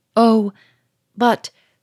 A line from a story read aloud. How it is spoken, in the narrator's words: gasped Sonia, terror-stricken